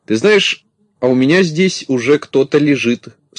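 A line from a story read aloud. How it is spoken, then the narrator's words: Plain. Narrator (Russian): сказал Коржик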